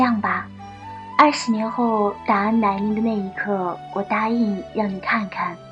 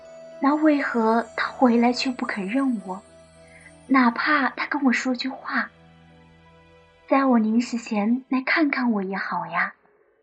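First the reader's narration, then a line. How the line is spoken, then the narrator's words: Heartbroken woman, choked. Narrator (Chinese): 女子心疼非常，哽咽道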